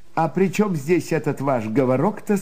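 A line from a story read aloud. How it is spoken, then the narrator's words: Plain. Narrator (Russian): спросил он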